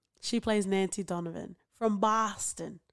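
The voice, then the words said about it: Put-on Boston accent. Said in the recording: “That's my Boston accent.”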